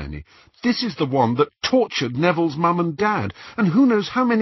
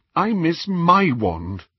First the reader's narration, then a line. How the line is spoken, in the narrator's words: Hermione said miserably